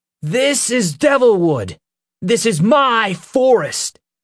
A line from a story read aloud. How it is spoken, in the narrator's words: Peter shouted